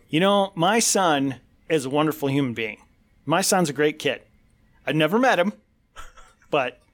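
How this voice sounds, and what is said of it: Imitates another person's voice. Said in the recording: “my impression of Joe Biden”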